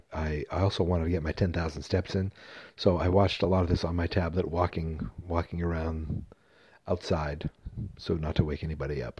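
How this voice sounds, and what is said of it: Quiet, low-volume speaking. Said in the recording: “not talking very loud”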